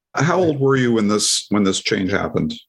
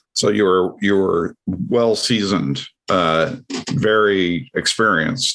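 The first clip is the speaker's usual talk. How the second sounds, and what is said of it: Sarcastic tone. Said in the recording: “I'm being sarcastic”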